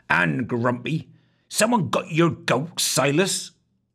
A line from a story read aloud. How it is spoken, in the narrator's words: Foul Scowler grunted